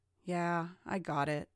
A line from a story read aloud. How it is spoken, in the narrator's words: sighed Mark